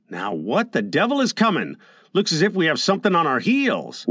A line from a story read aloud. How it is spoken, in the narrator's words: Curtin exclaimed